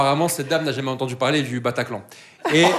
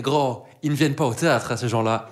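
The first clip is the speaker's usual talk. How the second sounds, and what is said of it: Strong put-on accent. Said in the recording (French): “avec le plus bel accent possible”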